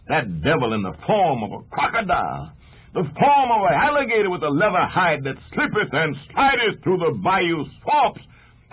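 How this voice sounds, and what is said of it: Imitates a preacher's sermon voice. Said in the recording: “You really give a good imitation of a preacher”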